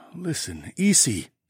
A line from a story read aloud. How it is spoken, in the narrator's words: Sawadi sighed